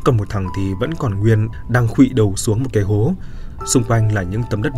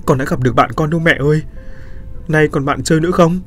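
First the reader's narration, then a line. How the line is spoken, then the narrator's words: Sobbing child. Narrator (Vietnamese): Những lời phát ra từ miệng đứa trẻ đang thút thít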